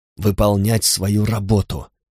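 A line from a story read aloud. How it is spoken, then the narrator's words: Hissed. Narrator (Russian): прошипел он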